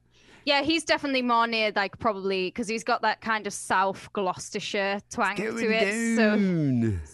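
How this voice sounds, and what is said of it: Northern Welsh accent. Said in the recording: “This is a Northern Welsh accent, what I'm doing”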